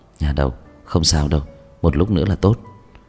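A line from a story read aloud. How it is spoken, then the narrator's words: Soft voice. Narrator (Vietnamese): Anh nhỏ giọng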